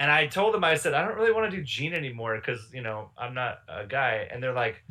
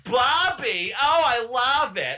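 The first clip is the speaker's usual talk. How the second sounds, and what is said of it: Cartoon mom character voice. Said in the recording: “I've got a Linda voice ... That voice is spot on.”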